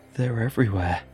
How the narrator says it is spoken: gasped Rog

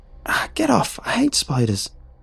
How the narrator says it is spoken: I squealed

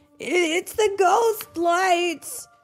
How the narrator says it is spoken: they yelled

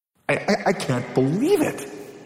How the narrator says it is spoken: he stammered

